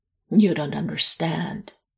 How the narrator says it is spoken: Alex began, roughly, stubborn, unnecessarily stubborn

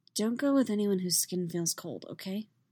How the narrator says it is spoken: smiles, tiredly, and offers softly

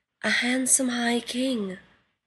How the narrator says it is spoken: the nymph sighed softly

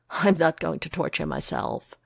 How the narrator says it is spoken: Foggy assures him, laughing sharply

